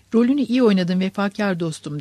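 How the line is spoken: Plain. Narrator (Turkish): dedi

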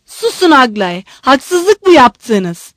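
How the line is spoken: Shouting. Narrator (Turkish): diye bağırdı

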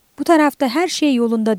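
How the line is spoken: Shouted. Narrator (Turkish): diye bağırdı

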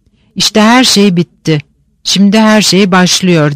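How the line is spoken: Muttered. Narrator (Turkish): diye mırıldandı

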